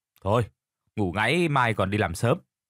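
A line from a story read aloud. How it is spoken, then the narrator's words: Stern, pressed voice. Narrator (Vietnamese): gã Toàn gằn giọng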